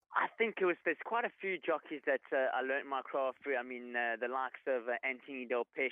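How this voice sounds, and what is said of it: South African accent. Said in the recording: “we can hear in your accent you're a South African”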